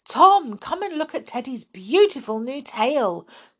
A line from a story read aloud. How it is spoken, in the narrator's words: cried the clown